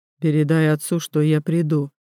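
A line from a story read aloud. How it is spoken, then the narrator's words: Calm reply. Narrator (Russian): отвечает он спокойно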